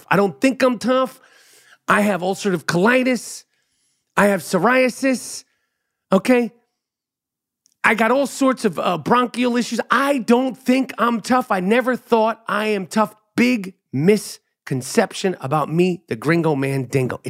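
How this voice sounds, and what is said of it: Tough-sounding New York accent. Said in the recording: “I sound tough because it's a New York accent. It's an attitude... Most New Yorkers sound exactly like I do.”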